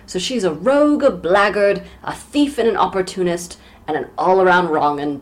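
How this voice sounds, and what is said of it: Bad put-on Cockney accent. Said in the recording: “my bad Cockney accent is locked and loaded ... my accent coach is on vacation this week”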